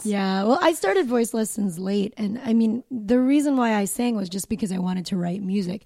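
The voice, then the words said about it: Raspy voice. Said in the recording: “I have this raspy voice. I've had this my whole life.”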